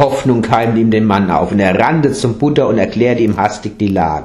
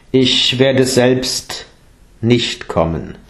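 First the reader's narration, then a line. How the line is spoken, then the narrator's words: Plain. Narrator (German): sagte der Buddha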